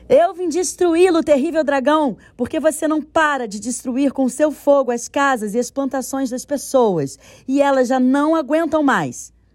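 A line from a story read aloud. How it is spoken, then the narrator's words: Brave exclamation. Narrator (Portuguese): exclamou bravamente para Tanin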